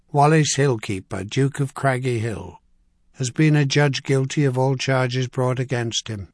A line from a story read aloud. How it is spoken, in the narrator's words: he read in a flat, carrying voice